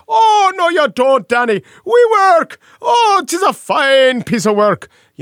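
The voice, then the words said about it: Comically bad put-on Irish accent. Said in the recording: “I just want to get into the Irish accent ... it's not a good Irish accent, but it sounds like a comically bad Irish accent”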